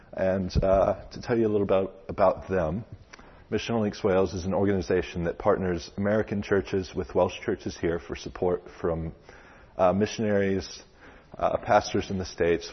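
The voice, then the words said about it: American Texan accent. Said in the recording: “I'm clearly not from around here. I have a little bit of a different accent. I'm here from America, specifically from Texas”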